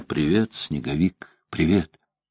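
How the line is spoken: Whispered. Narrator (Russian): она прошептала

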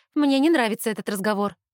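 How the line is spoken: Sharp. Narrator (Russian): резко говорю я

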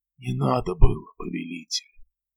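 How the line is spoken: Mumbled. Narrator (Russian): пробормотал

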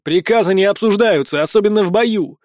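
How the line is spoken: Barked. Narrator (Russian): Рявкнула

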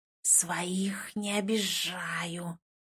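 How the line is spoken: Inner voice hissing. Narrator (Russian): прошипел голос внутри меня

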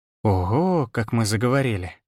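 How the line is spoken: Drawling. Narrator (Russian): Протянула Виола

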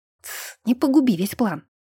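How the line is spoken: Hurried whisper. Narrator (Russian): прошептал Вирфальц, тараторя на ходу

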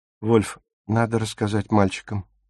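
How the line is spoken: Whisper. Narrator (Russian): прошептала она

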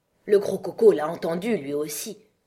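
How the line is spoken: Low voice, to herself. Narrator (French): continua la Reine Blanche à voix basse, comme si elle se parlait à elle-même

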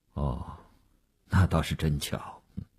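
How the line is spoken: Flat, indifferent. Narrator (Chinese): 吴长天淡淡地说

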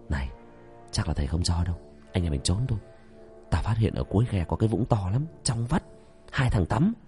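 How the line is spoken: Breathless whisper. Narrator (Vietnamese): ông nhõi đang huỳnh huỵch chạy, thì thầm

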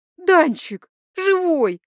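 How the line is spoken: Happy squeal. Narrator (Russian): счастливо взвизгнула

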